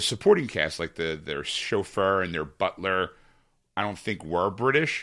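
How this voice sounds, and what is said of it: Usual voice. Nothing is said of it.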